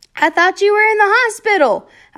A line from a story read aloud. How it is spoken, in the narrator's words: I yelled